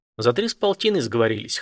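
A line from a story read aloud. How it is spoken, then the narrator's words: Smirking grunt. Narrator (Russian): хмыкнул Елисей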